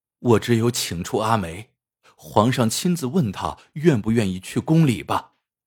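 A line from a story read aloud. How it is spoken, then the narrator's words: Sighing. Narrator (Chinese): 阿成叹道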